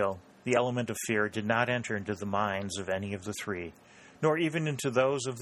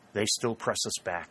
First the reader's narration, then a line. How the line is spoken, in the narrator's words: murmured Harley